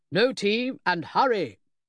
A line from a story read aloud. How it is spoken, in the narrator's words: bellowed